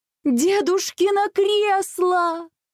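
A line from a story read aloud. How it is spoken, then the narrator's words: Horrified exclamation. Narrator (Russian): в ужасе воскликнула мама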